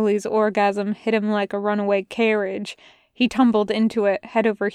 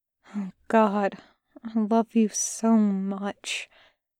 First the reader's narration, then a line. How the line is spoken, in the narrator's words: mumbled into skin